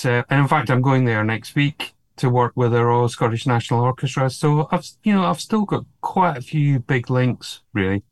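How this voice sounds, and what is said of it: Scottish accent. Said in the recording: “my accent is still very much Scottish.”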